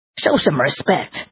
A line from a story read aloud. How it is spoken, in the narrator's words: growled Yuchi